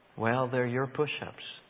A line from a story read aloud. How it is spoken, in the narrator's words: said